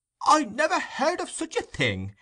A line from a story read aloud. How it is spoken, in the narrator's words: exclaimed the fat gentleman